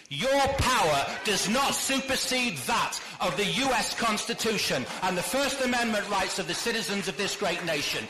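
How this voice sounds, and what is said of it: British accent. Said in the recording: “somebody with a British accent”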